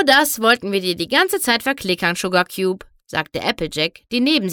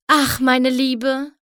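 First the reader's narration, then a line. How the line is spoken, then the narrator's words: Sigh. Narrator (German): seufzte Rarity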